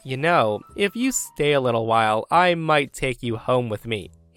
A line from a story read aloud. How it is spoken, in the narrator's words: suppressed a chuckle she says